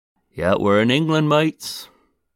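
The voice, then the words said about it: Weak put-on English accent. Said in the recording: “my lazy, non-existent English accent”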